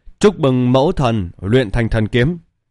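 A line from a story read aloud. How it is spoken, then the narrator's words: Loud, excited cry. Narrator (Vietnamese): Dạ kiêu thần tử kích động lớn tiếng kêu lên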